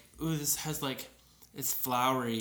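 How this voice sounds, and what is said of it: Imitation of a mother's voice. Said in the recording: “your mom voice”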